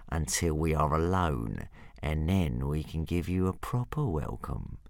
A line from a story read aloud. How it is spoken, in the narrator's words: purred Hook Fang menacingly